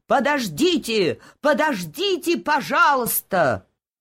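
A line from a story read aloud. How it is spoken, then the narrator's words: Loud shout. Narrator (Russian): доктор закричал громким голосом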